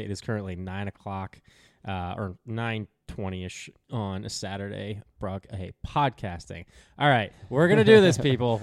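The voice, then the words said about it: Slightly raspy morning voice. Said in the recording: “my voice is a little raspy”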